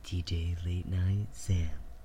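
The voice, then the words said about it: Smooth late-night radio DJ voice. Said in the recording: “DJ, late night DJ radio voice”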